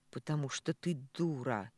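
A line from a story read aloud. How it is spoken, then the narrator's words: Hoarse, irritated. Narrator (Russian): Хрипло и будто раздраженно роняет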